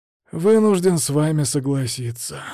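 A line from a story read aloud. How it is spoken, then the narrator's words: Weary prince. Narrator (Russian): устало ответил принц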